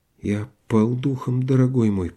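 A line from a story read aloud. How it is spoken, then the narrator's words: Trembling mutter. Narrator (Russian): пробормотал он, дрожа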